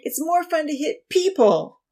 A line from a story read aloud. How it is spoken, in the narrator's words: Odin whined